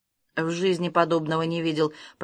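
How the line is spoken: Mutter. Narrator (Russian): пробормотал Масклин

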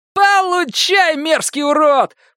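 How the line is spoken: Shouting. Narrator (Russian): прокричал Джек

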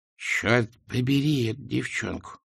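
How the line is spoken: Muttering. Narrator (Russian): пробормотала она

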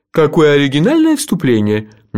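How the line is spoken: Sudden laugh. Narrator (Russian): неожиданно рассмеялся сэр Кофа

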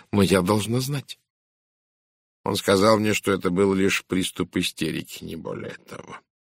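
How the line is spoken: Quiet. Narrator (Russian): тихо сказал Пуаро

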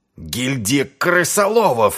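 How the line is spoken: Furious growl. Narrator (Russian): зарычал Артур, от ярости

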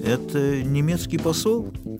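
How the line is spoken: Uncertain. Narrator (Russian): неуверенно произнес Мандельштам

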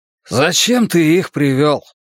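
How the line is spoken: Guttural, hoarse man. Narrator (Russian): отозвался человек на стульчике, произнося слова языка побережья как-то гортанно, со странно знакомым хриплым звучанием

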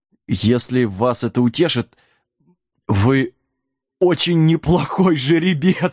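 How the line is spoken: Laughing harder. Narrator (Russian): Сэм засмеялся еще сильнее

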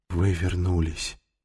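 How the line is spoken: Breathless exhale. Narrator (Russian): выдохнул он

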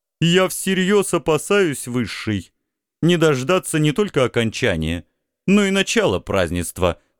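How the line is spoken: Insolent interruption. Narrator (Russian): нахально перебил моего родича Исток

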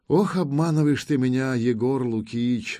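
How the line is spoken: Sighing young woman. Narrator (Russian): вздохнула девушка

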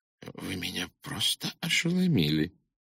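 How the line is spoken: Whispered. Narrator (Russian): Нортон прошептал

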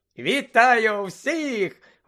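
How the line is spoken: Cheerful exclamation. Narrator (Ukrainian): весело вигукнув Бегмен

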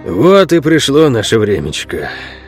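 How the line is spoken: Old man's sigh. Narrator (Russian): вздохнул старый Ол

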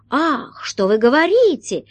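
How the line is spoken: Exclamation. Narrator (Russian): воскликнул астролог

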